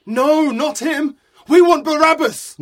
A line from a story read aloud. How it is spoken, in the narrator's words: They shouted